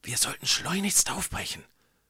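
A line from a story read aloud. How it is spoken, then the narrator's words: Whispered in ear. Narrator (German): flüsterte Johann dem Müller ins Ohr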